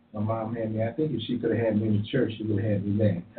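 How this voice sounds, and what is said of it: Southern American accent. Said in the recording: “I hear a Southern. I hear a Southern accent.”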